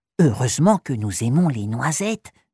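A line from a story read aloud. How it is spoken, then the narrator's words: Mischievous whisper. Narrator (French): chuchote malicieusement Malika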